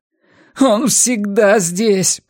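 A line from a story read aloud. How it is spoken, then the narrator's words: Moaning. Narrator (Russian): простонал Арни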